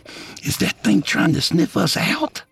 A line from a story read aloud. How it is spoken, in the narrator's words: Curtis whispered